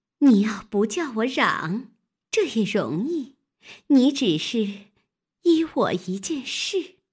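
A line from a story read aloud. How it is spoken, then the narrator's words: Laughing. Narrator (Chinese): 笑道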